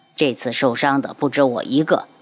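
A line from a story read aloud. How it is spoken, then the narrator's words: Cold voice. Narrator (Chinese): 漫天妖 冷声道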